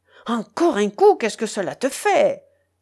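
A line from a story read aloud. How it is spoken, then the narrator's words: Shepherd exclaiming. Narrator (French): s'écria le berger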